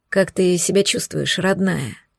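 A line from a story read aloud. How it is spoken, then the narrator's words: Soft, slightly hoarse, anxious. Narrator (Russian): Спросил он довольно мягким голосом, но легкая хрипотца выдала его волнение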